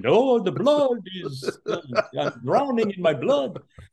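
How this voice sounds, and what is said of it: Horrible Dracula vampire accent. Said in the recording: “Dracula bit ... doing this horrible accent.”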